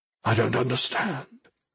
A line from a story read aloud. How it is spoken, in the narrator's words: he said quietly